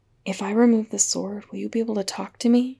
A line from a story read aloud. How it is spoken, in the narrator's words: asked Stiles under his breath